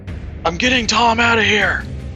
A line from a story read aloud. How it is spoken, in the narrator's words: a voice out back, the Kasathan possibly, shouting